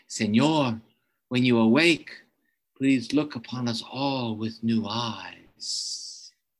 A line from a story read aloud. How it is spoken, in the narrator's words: a child from the Yanomamo tribe who lived in the rainforest ... he murmured in his ear